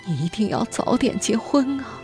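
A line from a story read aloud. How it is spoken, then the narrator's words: Confused grandmother sobbing. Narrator (Chinese): 外婆老的有点神志不清，她会突然望着吴文痛哭流涕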